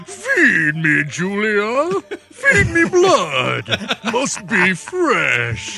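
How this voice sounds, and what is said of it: Cold Cenobite voice, chattering teeth. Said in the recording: “that Cenobite must be cold. Just listen to his teeth chatter a bit ... do this voice”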